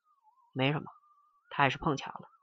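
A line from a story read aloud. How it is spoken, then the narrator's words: Flat, indifferent. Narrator (Chinese): 陈诚淡淡的说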